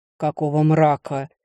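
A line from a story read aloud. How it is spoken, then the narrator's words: Growled. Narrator (Russian): прорычал он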